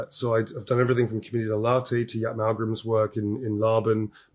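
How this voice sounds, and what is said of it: Voice strained by a cold. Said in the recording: “I've got a bit of a cold, so I have to watch my throat a little bit.”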